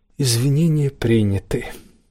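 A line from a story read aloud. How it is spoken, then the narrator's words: Tired turtle. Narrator (Russian): устало произнесла черепаха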